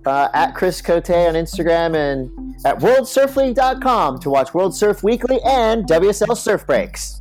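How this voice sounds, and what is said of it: Announcer voice. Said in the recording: “That was my announcer voice. Just kicked right in.”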